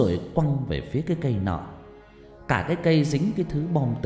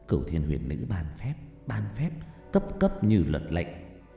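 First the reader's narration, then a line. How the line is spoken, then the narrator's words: Old person muttering incantation. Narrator (Vietnamese): Cụ Mỹ lẩm bẩm luyện phép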